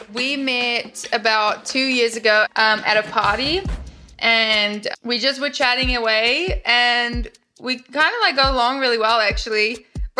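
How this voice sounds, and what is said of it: Speaks with a noticeable accent. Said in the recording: “he was just more into my accent”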